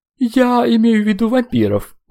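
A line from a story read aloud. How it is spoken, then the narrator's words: Clarifying. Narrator (Russian): уточнил Алексей Николаевич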